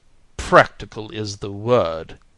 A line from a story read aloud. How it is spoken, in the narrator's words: said he, with another hateful chuckle